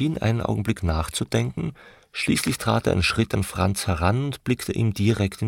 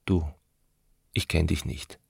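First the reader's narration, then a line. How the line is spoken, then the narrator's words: Quiet. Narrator (German): sagte er leise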